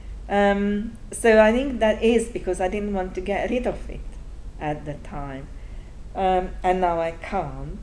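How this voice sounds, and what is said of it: Strong Hungarian accent in English. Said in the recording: “I wish I could speak English without an accent... I'm from Hungary... But my accent is still so strong.”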